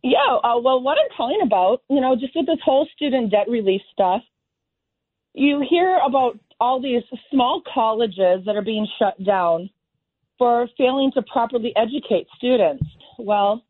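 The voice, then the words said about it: Slightly raspy voice. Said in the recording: “I'm getting a little over some bronchitis, so I've got a little bit of raspiness to my voice”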